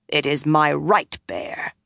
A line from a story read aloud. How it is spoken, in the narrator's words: Kuladin said angrily